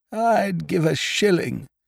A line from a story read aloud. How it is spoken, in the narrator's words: said Biffy, wistfully